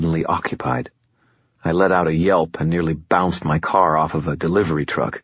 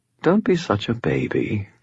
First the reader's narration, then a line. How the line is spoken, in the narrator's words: replied, her tone amused